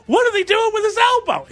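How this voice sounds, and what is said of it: High-pitched alarmed squealing voice. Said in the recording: “It makes me scream at a high pitch ... That's my alarmed okay. White Sox fan voice ... It turns me into a higher pitched squealer than I already am”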